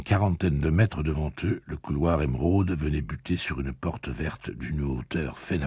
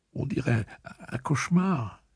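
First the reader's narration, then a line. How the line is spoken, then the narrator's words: Small voice near tears. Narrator (French): fit-il d'une petite voix au bord des larmes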